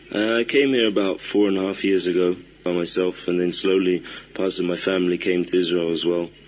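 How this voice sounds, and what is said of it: British accent. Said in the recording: “I hear you have a British accent.”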